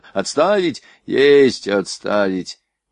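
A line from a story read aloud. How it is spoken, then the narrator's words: Loud shout. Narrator (Russian): Шульц громко крикнул Кащенко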